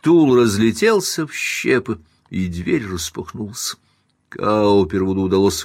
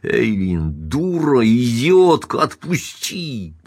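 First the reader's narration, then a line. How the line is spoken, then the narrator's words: Hoarse, strangely altered growl. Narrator (Russian): прорычал он хриплым, странно изменившимся голосом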